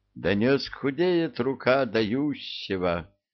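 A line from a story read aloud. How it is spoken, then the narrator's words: Sighing. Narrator (Russian): вздохнул вожак летучих обезьян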